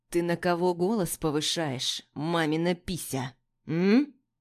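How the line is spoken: Menacingly quiet voice. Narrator (Russian): Угрожающе тихим голосом произносит Плахов

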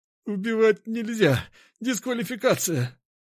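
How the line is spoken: Strained pinned-down wheeze. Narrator (Russian): с трудом прохрипел он, ведь я со всей силы прижимал его к полу

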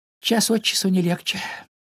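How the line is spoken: Sigh. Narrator (Russian): вздохнул Пампкин

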